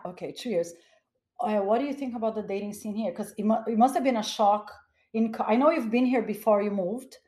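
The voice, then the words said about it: Foreign accent often taken as Russian. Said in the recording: “a lot of people ask me if I'm Russian... I don't know if it's because of my accent... because of accent... Yeah, because of the accent.”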